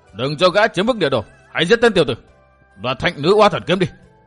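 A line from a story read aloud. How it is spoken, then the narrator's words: Crowd shouting loudly. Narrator (Vietnamese): quần hùng vẫn quát to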